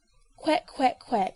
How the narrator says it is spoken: Rodney told him, yawning

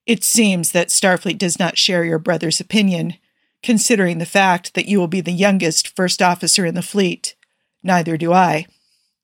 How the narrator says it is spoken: he said somewhat stiffly

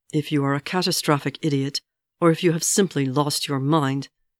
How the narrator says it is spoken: Ymir snarled

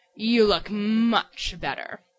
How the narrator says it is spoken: he rumbled, sitting back smugly

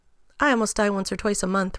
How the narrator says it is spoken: Rodney said evenly

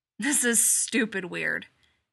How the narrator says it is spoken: growls

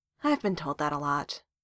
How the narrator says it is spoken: Darcy sighed

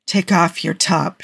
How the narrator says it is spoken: she whispers

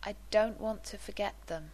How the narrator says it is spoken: he admitted slowly

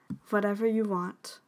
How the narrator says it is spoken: Mal said softly

